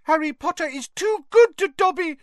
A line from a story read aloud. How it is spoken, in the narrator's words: he squeaked, wiping large tears out of his enormous eyes